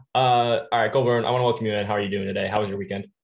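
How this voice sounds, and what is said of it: Tired, worn-out voice. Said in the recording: “As you can tell by my voice, I am dead tired.”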